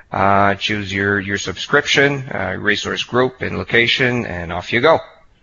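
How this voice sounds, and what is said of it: Speaks with a noticeable accent. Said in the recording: “a great accent”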